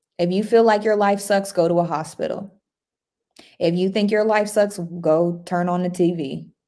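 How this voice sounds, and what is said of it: Texas accent. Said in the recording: “I'm deep in Texas. My Texas accent.”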